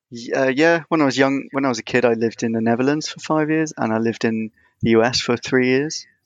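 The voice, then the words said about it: British accent. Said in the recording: “it's obvious from your accent, you're over in the UK”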